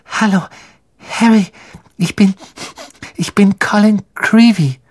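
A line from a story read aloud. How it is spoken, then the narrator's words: Breathless. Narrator (German): sagte er atemlos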